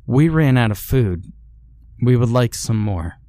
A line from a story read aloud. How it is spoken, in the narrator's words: he said